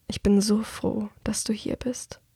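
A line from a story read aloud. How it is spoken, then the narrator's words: Murmuring. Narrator (German): murmelt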